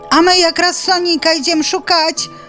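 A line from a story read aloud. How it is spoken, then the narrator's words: Chorus of animal shouts. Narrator (Belarusian): закрычалі разам кураняты, сарока і заяц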